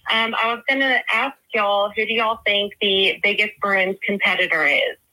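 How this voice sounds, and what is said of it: Slight regional accent. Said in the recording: “with my little accent”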